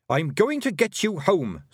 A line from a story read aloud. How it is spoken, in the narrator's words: snapped Tiffany